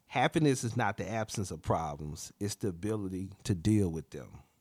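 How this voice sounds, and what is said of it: Country accent. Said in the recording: “for the ones who struggle in hearing my country accent”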